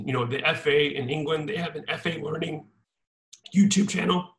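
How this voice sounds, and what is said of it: Strained, failing voice. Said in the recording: “I can barely talk for some reason ... Lost my voice there for a second.”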